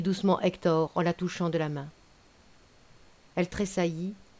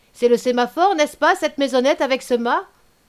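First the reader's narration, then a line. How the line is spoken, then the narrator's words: Shouting. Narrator (French): cria M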